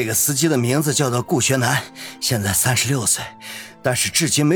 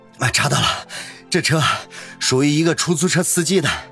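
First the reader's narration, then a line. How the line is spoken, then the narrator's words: Breathless, panting. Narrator (Chinese): 小伙子警察马上又跑了进来，气喘吁吁的说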